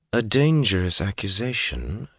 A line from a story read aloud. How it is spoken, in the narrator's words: she said calmly